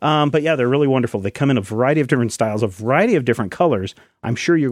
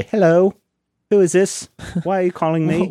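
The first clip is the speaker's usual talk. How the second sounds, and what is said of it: Bad put-on British accent. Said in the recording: “Why am I talking in British ... bad British accent?”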